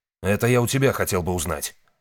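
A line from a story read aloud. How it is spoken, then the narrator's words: Sharp rebuke. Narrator (Russian): резко осадил его Рон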